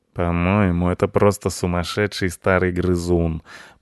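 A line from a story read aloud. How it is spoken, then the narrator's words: Grumbling. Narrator (Russian): проворчал Рыжопиус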